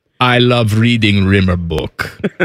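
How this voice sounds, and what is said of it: Imitates another person's voice, badly. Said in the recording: “my horrible Yarmo impersonation.”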